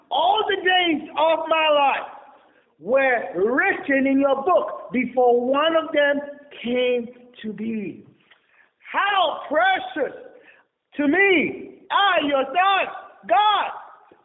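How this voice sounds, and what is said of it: Yelling while reading aloud. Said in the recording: “why are you yelling? The exclamation mark over there. That's why I'm yelling.”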